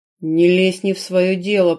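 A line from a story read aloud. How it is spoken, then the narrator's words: Warrior's growl. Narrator (Russian): прорычал воин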